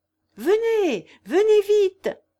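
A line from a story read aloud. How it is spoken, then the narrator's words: Cheerful shout. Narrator (French): cria-t-elle gaiement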